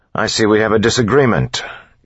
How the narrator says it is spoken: Kelsier said loudly

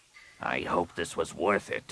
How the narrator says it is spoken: Rapung growled

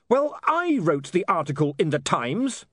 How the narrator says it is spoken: he snapped

